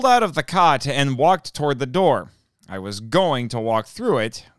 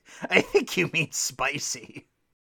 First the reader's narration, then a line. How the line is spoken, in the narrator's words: Jimmy laughed and said